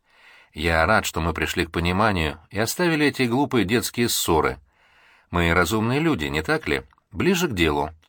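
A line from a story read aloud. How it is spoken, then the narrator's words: Dry interruption. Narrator (Russian): сухо перебил Виктор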